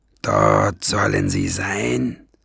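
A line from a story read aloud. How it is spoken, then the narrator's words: Growling. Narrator (German): knurrte er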